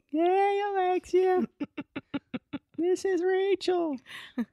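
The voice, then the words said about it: Ridiculous put-on voice. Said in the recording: “in my most ridiculous voice possible”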